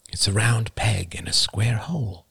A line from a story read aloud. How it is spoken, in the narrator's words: his father had murmured